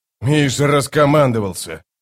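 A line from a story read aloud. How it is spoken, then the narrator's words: Growling guard captain. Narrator (Russian): прорычал капитан охраны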